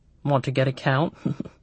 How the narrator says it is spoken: He chuckled

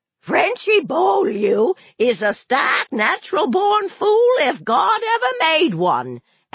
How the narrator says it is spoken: Aunt Evie hollered

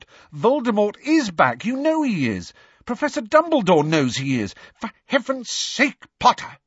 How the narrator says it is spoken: said Professor McGonagall angrily

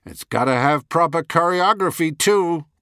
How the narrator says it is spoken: growled Terry

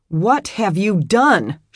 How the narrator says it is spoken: she shouted

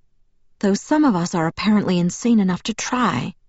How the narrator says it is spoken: Kate muttered

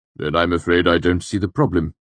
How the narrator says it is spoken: the Chancellor said curtly

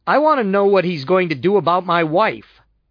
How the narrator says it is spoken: said loudly, making sure that everybody heard it

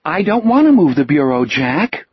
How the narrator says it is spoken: Richard said in a childish, lecturing voice

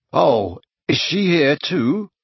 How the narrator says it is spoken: Harry croaked

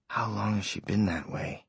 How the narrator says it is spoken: Johnny asked quietly

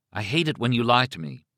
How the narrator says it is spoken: she said simply

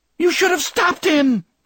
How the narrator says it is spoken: Kirsten screamed

